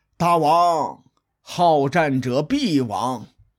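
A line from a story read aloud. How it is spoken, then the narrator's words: Long heavy sigh. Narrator (Chinese): 公孙胜仰天长叹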